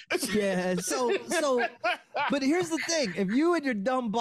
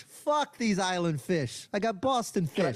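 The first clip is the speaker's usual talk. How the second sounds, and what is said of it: Exaggerated Boston accent. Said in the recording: “one of the best Boston accents I've ever heard of my life. ... And also terrible.”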